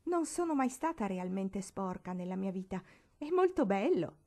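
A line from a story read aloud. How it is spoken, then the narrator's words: Pleased exclamation. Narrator (Italian): esclamò compiacendosi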